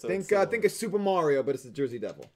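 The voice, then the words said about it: Put-on Brooklyn accent. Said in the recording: “random Brooklyn accent there for like 3 seconds”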